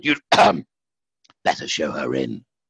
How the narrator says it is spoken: He cleared his throat and hoarsely called

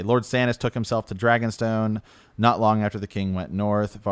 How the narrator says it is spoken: Varys said

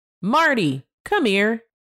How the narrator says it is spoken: hollered

